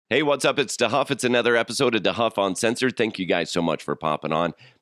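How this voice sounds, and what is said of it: Sick, throaty voice. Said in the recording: “My voice is a little bit different today. It's because I'm fighting off probably a cold or some crazy virus ... swarming around my throat”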